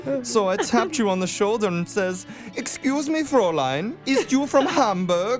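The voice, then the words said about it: Put-on German accent. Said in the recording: “a sexy foreign accent ... Are you a Randy German right now ... that's not the sexy accent”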